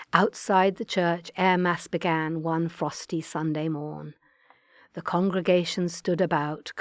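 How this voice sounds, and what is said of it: Attempted Australian accent. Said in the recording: “good luck with the accent ... my 5-year-old grandson is Australian, so I was able to get a few pointers from him”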